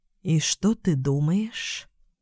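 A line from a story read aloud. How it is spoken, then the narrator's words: Sighing. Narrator (Russian): Лу вздохнула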